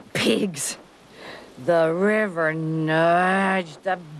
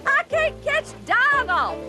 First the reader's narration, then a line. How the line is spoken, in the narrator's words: John yelled back